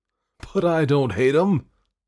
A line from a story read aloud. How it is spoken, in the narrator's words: exclaimed Santa Claus positively